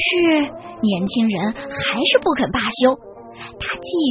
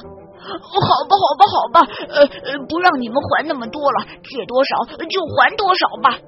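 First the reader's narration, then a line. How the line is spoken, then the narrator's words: Landlord pleading desperately. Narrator (Chinese): 财主苦苦的哀求说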